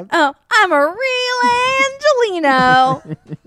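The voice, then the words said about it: Cartoonish little kid character voice. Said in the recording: “Sounds like a cartoon voice ... like a little kid character”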